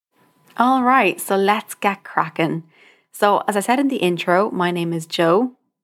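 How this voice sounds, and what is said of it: Irish accent, somewhat mixed. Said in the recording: “You may have guessed from the accent, I am Irish ... forgive me if my accent is a bit all over the place”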